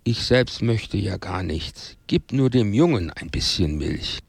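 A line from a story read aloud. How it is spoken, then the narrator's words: Very sad. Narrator (German): Als die Frau begriff, dass der Hausherr äußerst erzürnt war, sagte sie sehr traurig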